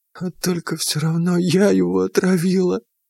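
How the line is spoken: Sudden, through tears. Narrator (Russian): вдруг сказала она сквозь слезы

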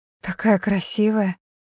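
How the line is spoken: Entranced whisper. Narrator (Russian): заворожённо прошептала Кэрри

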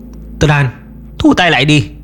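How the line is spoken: Shout. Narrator (Vietnamese): Chú hai hét lên

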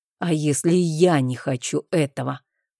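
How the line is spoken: Displeased growl, duke. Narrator (Russian): прорычал недовольно герцог

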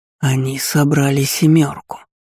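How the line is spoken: Ecstatic whisper. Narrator (Russian): в экстазе шептал Гейденус

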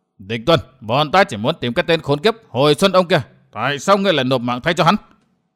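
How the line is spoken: Furious shout. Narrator (Vietnamese): đầy căm tức, Lâm Sương quát

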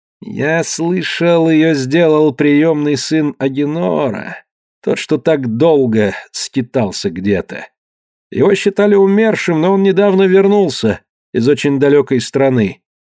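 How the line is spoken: Slow speech. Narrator (Russian): Эвполин медленно сказал

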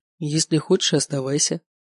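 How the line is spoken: Feigned indifference. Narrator (Russian): как можно более равнодушным тоном произнес я

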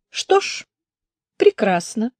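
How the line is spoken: Calm. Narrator (Russian): Девушка сказала спокойно

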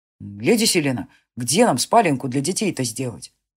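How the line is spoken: Plain. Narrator (Russian): спросил Веткин

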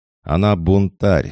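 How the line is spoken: Shouted. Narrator (Russian): закричал Илюха

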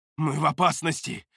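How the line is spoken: Hiss. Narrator (Russian): прошипел он

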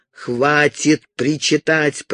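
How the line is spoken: Growl. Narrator (Russian): прорычал он

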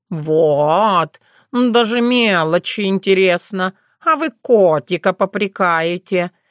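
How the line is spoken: Grumbling. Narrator (Russian): разворчался Терентий

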